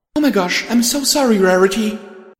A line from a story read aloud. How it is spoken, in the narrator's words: my host cried out in shock at the kiss